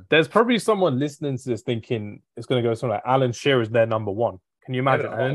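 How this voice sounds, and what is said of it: Usual voice. Nothing is said of it.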